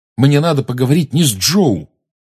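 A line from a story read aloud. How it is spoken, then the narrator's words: Sharp reply. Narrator (Russian): резко ответил Гарри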